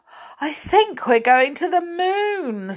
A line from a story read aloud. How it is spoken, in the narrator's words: said Joe, panting